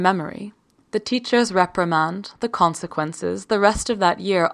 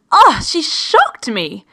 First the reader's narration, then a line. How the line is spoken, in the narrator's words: she shouted